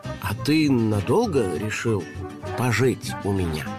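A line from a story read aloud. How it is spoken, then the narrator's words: Uncertain question. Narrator (Russian): неуверенно спросил ёжик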